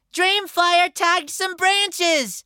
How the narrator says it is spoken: Carr shouted

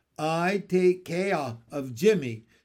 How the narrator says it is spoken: said Pin

